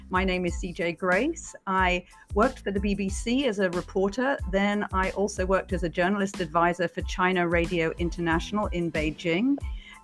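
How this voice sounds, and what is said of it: British accent. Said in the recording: “as you can probably tell from my accent, I'm originally from Britain”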